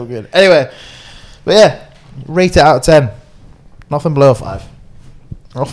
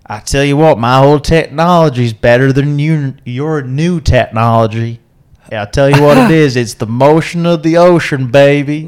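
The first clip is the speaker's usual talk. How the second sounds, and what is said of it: Put-on Southern American accent. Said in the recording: “southern... Louisiana, Tennessee... Is ... southern American accent good or bad?”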